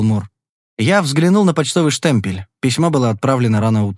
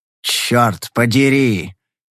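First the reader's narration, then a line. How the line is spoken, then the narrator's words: Growl. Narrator (Russian): прорычал Каллаген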